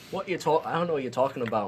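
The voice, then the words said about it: Put-on accent. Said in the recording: “my friends are deciding to do accents today”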